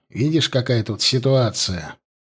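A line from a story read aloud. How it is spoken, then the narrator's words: Sighing. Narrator (Russian): вздохнул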